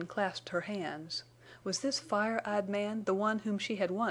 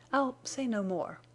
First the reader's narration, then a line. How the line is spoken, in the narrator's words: she faltered